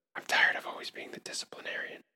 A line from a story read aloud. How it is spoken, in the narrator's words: she whispered